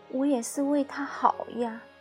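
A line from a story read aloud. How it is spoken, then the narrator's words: Weak murmur. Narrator (Chinese): 我无力的喃喃道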